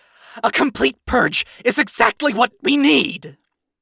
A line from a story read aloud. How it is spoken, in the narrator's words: Lute, having lost any and all restraint, yelled back